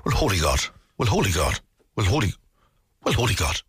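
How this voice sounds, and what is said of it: Put-on rural Wicklow accent. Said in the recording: “Miley from Glenroe ... He's from deep Wicklow, wasn't he? ... From Kilmacannock direction ... There's your Wicklow accent.”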